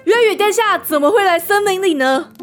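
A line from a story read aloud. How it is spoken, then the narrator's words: Forced smiling reply. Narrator (Chinese): 罗斯特忍住皱眉的冲动，还是堆起笑容回答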